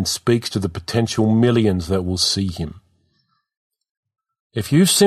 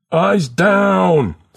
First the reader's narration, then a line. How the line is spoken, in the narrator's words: College scream